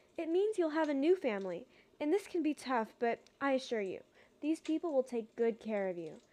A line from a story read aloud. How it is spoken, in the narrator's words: sighed the nurse